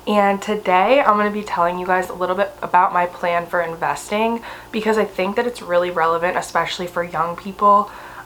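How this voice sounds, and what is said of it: Strained, unwell-sounding voice. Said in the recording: “I'm sorry that my voice sounds like this right now, and if it's annoying ... I had COVID this past week, and so I'm still recovering, and I have like this little chest gremlin”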